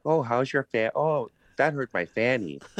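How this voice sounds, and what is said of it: Put-on Wisconsin accent. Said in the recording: “that sort of sounds like Wisconsin to me a little ... that's not bad for a New Jersey guy”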